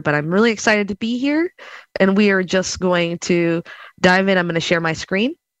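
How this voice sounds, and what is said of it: Croaky, slightly sick voice. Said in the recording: “My voice is a little weird and croaky. I'm a tiny bit under the weather”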